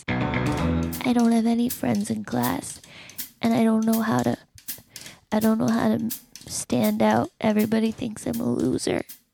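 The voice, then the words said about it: Creepy put-on voice. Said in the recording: “That voice you're using is creeping me out.”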